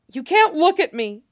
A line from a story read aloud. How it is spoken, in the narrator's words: she says desperately